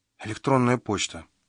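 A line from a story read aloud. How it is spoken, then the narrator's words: Whisper. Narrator (Russian): шепнула она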